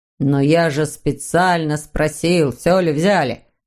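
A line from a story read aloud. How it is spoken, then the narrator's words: Grumbling father. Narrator (Russian): проворчал папа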